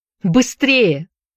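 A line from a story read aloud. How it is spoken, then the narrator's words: Desperate shout. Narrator (Russian): кричала она с отчаянием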